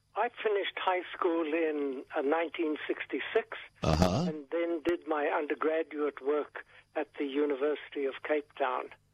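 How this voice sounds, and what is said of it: South African accent, slightly British. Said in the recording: “He speaks with an accent ... he actually has come from South Africa. And South Africa has a twinge of the British”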